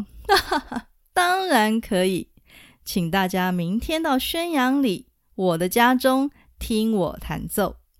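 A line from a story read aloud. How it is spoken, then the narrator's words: Laughing. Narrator (Chinese): 陈子昂大笑说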